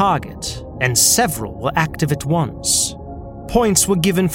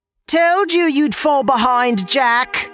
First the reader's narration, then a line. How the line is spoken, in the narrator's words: A friend of his, Peter, yelled as he passed